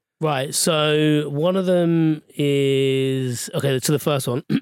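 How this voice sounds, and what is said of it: Usual voice. Nothing is said of it.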